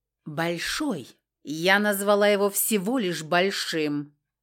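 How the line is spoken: Mock growl. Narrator (Russian): притворно рыкнула

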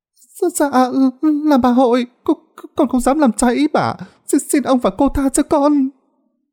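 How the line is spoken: Frightened stammer. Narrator (Vietnamese): Con mén sợ hãi lắp bắp trả lời

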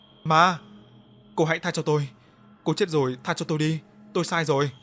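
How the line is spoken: Terrified screaming. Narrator (Vietnamese): sợ hãi hét lên

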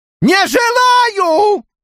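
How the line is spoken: Yell. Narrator (Russian): заорал

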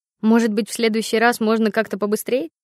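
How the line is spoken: Snorting. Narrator (Russian): фыркнула я

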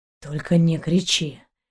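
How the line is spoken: Barely audible whisper. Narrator (Russian): еле слышно прошептал Далок

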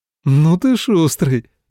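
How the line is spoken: Laughing. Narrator (Russian): рассмеялась Юратя

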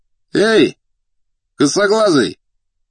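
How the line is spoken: Shouted. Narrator (Russian): крикнул один из деловых

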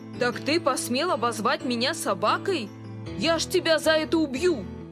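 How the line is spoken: Angry growl. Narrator (Russian): зарычал злопыхатель

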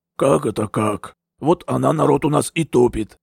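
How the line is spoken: Sudden low hoarse voice. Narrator (Russian): Неожиданно раздался низкий, хриплый голос

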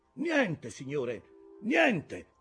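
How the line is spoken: Shouted reply from above. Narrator (Italian): fu il grido che scese in risposta

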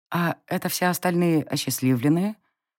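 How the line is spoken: Quiet. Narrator (Russian): Тихо кивнула я

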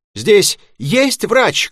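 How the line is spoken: Shout. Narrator (Russian): крикнул

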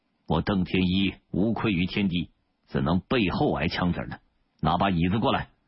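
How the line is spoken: Loud declaration. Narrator (Chinese): 邓天一…高声对监刑官说道

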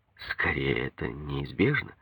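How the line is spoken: Soft objection. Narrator (Russian): мягко возразил я

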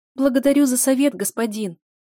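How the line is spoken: Timid babble. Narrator (Russian): пролепетала бывшая служанка

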